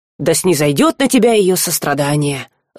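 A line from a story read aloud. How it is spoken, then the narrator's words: Gloating hiss. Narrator (Russian): злорадно прошипел Жар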